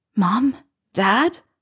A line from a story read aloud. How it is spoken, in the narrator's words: whispered